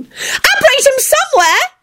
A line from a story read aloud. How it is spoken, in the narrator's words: Ginny shouted